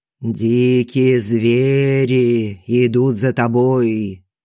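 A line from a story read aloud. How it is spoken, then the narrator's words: Sepulchral voice. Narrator (Russian): за могильным голосом говорит Колесников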